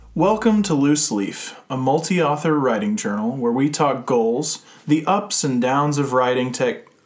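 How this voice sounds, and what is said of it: Announcer-style radio voice. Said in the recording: “You totally went into your radio voice right there. ... I'm reading copy.”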